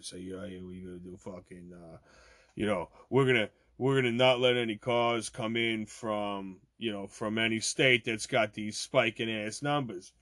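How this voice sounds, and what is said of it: Italian-American accent, imitates another person's voice. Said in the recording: “I start talking Italian. You got to do your Cuomo voice.”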